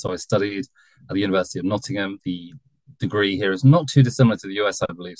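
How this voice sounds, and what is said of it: British accent. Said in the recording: “I'm from the UK, as you'll probably tell from my accent.”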